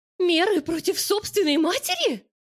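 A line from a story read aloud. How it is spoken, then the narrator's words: Shrill squeal. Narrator (Russian): взвизгивает она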